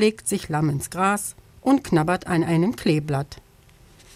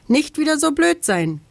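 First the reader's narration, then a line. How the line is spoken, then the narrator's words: Calling down from tree. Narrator (German): ruft er vom Baum herab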